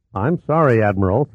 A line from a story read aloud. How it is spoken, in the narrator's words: said Fawcett